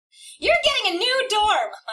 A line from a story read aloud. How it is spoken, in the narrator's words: my mother yells